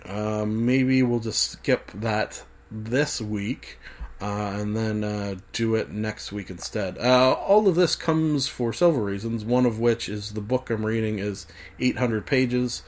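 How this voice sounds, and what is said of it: Strained, fading voice. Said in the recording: “I feel like I'm losing my voice a little bit and the coughs will start to come hard and heavy”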